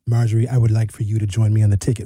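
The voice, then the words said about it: Imitates another person's voice. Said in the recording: “That was a great impression,”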